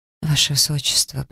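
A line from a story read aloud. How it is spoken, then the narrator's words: Frightened whisper. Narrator (Russian): прошептала испуганно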